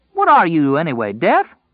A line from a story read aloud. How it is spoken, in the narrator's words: Tom called indignantly